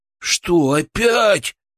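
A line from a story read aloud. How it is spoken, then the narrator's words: Groaning. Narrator (Russian): простонал Фролов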